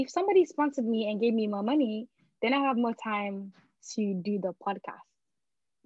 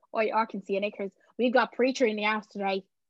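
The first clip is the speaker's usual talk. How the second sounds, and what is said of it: Poor attempt at an Irish accent. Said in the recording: “let me try and do an Irish accent ... That's not really good ... That's quite terrible, that isn't it? That's a terrible accent.”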